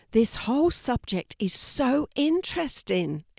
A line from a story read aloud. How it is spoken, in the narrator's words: exclaimed Louis